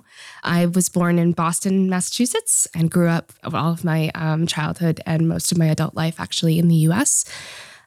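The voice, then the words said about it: American-sounding English accent. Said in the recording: “as you can tell from my accent, I'm not from the Netherlands.”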